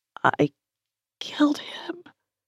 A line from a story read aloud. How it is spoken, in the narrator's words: whispered and repeated